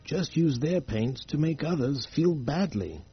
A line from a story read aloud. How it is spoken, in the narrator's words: the old one said sadly